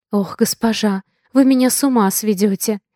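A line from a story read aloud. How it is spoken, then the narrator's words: Sighing. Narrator (Russian): Вздохнула женщина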